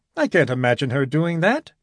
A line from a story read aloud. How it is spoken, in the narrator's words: grinned Whittaker cheerfully